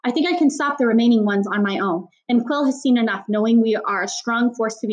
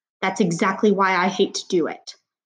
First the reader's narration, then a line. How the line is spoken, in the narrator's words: growled the cheetah